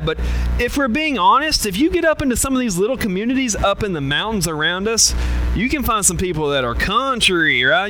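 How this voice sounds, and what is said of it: Southern drawl. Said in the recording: “my Southern accent... Southern drawl”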